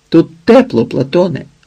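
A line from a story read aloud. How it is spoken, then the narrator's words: Shout across a hall. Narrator (Ukrainian): крикнув через весь холодний гранітний хол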